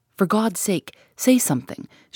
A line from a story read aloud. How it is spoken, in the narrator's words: she exclaimed, passionately